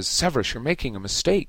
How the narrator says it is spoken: said Lupin urgently

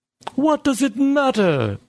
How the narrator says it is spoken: Berkson yelled

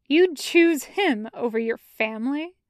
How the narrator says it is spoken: Yu Zuyuan scoffs

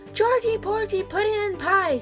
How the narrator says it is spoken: yelled

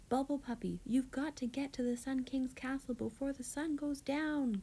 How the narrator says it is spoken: Gil cried

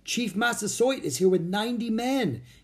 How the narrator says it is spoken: he shouted

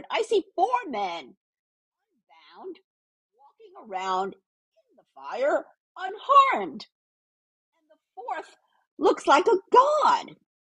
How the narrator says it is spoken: Nebuchadnezzar shouted

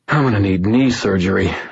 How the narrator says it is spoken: I sighed

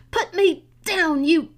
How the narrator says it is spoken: Petra screamed and sputtered, at a loss for what to call the creature

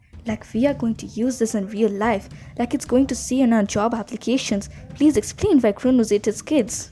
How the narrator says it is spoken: Nancy Buffett mumbled to a friend

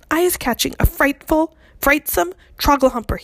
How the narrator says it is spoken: cried

